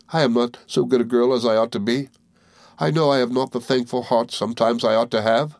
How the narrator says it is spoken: she exclaimed, still weeping pitifully

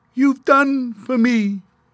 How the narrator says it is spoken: called in a weak voice

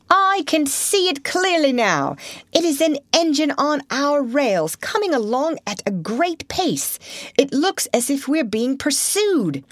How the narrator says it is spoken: called out

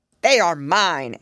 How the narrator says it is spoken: answered the dragon scornfully

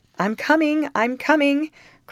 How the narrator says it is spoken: cried the voice from behind the clump of dwarf trees

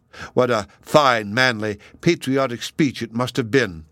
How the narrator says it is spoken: I exclaimed in an outburst of enthusiasm

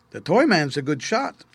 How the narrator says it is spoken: exclaimed Jehoshaphat

